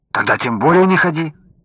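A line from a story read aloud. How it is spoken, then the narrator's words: Alarmed exclamation. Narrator (Russian): Встревоженно воскликнул Александр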